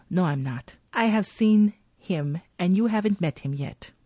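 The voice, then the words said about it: Badly done put-on accent. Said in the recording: “That's a horrible accent.”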